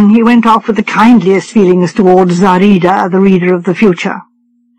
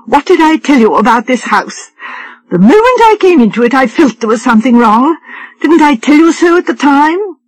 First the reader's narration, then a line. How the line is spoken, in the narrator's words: exclaimed